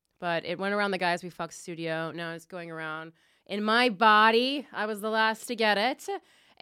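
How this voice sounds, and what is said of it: Sick, ill-sounding voice. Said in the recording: “I am very sick today ... You'll hear it in my voice perhaps ... I think I just have a flu”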